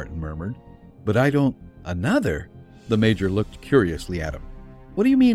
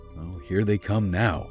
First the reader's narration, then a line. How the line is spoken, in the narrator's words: the major muttered